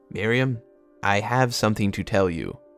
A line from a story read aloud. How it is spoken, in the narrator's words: said Hiram